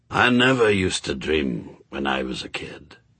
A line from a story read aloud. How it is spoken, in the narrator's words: he said quietly